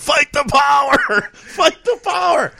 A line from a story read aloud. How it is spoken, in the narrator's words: I'm yelling